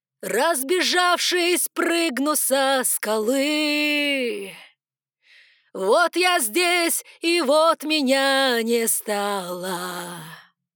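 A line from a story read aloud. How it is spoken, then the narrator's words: Yelling woman. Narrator (Russian): Орала я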